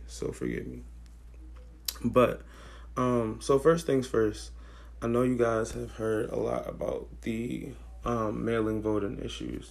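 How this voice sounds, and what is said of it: Slightly raspy, strained voice. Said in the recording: “losing my voice ever so slightly, so I sound raspy.”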